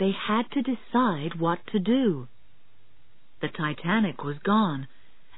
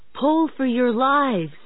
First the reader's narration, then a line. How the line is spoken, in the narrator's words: One crewman shouted